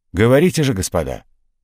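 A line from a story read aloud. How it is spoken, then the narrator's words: Loud. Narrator (Russian): Карабанов громко сказал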